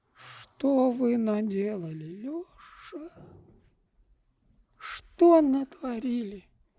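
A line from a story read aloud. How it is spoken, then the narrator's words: Sighed. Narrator (Russian): вздохнул тот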